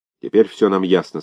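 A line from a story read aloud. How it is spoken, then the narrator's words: Plain. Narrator (Russian): сказал Вацак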